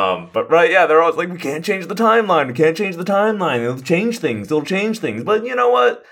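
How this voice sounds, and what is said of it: Usual voice. Nothing is said of it.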